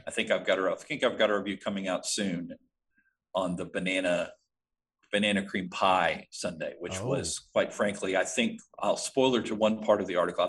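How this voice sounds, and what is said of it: Southern US accent. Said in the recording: “if my accent doesn't come out often enough, I am from Arkansas. I've lived much of my life in the South”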